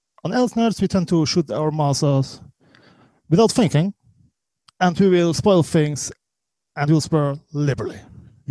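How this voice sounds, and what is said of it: Swiss accent. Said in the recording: “as you can hear by the accent, that is not Corey Scott. That is ... our Swiss producer”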